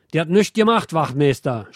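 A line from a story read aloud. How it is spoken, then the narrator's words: Indignant shout. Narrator (German): schreit Andi empört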